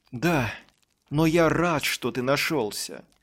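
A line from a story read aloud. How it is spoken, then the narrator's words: Joyful. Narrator (Russian): радостно сказал отец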